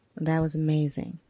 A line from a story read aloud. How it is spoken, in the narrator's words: he ultimately said